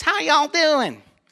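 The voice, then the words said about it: Put-on thick Southern Kentucky accent. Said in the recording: “she's a Southern belle ... she's from Kentucky ... she got this thick accent like this”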